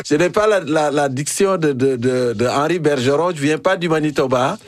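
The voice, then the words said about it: African accent speaking French. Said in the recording (French): “mon accent africain ... C'est encore plus savoureux avec ton accent africain”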